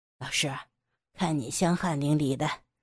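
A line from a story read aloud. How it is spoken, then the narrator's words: Soft. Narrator (Chinese): 杨野 轻声地说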